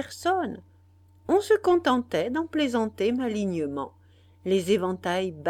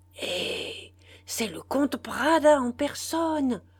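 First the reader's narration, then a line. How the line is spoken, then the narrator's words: Amazed murmur. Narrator (French): murmura Narcisse émerveillé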